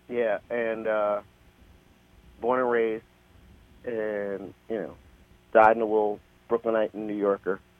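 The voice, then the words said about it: Slight New York accent. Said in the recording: “I can tell a little bit of New York accent in you.”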